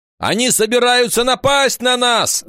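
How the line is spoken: Shouting. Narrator (Russian): закричал Вольф

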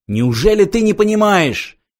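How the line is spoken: Hysterical exclamation. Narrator (Russian): истерически воскликнул Артур

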